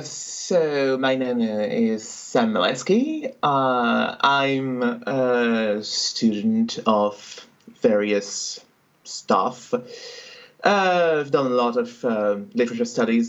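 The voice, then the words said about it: French accent. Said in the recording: “I'm not originally from the UK, as you can probably tell from the accent. I'm French.”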